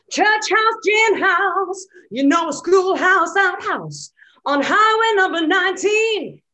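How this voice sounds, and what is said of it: Gravelly put-on singing voice. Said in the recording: “I have to put on this voice when I'm doing it ... You got that very gravel strange there, haven't you, that she projects with”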